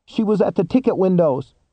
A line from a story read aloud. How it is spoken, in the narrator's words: cried out of the darkness that was relentlessly enveloping him